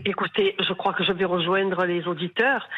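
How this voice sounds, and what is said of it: Southern French Marseille accent. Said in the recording (French): “à votre accent, j'ai compris que vous n'étiez pas à Strasbourg ni à Brest ... Je suis à Marseille.”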